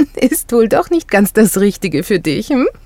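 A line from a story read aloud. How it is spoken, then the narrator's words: Laughing. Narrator (German): sagte sie lachend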